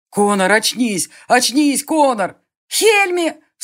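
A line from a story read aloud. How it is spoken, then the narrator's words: Sharp alarmed cry. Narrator (Russian): вскрикнула Селена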